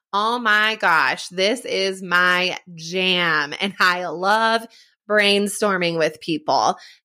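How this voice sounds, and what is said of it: Excited, pumped-up voice. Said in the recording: “You can hear it in my voice. I'm like so pumped up about it.”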